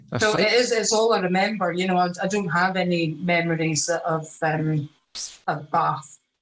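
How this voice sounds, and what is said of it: Posh Edinburgh-like Scottish accent. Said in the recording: “You've lost that Fifer accent ... I started off obviously with an English accent, it sounds a bit more like kind of Edinburgh, like posh Scottish”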